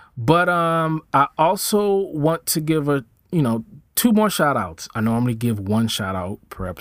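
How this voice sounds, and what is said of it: Usual voice. Nothing is said of it.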